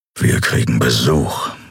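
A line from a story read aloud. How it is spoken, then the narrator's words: Growled. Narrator (German): knurrte er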